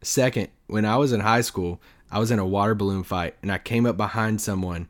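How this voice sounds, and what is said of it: Hoarse, nearly gone voice. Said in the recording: “I'm still halfway sick, so my my voice is almost gone. So that's why I sound weird.”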